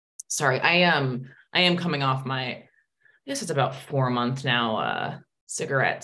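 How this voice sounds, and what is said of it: Deeper, radio-like voice. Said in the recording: “I do I have kind of more of a radio voice now? Do you hear that? ... It's changed, trust me.”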